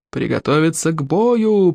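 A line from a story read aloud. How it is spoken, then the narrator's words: Creaky elderly voice. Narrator (Russian): проскрипел старейший старейшина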